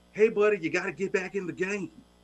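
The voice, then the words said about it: Imitates another person's voice, put-on accent. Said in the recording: “I'm going to do my bad accent,”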